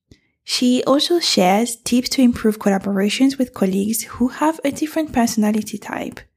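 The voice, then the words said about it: Nasal, congested voice. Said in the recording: “my voice is a bit nasal. That is because I forgot that in England, you can have all four seasons in one day, and I decided to go hiking in t-shirt.”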